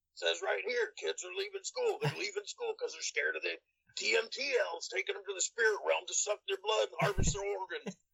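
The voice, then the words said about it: Gravelly imitation of another person's voice. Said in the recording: “really good Alex Jones impression ... You just got to get real gravelly with it.”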